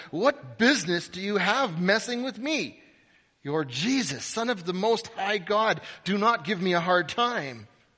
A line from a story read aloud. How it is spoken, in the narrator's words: he bellowed